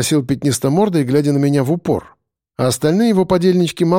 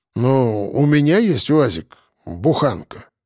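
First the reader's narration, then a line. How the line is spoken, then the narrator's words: Grumbled. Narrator (Russian): буркнул тот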